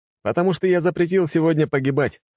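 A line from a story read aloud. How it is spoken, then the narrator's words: Snorting. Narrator (Russian): хмыкнул я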